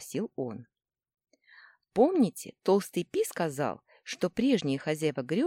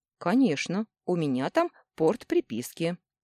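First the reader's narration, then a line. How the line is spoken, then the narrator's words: Plain. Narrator (Russian): ответил он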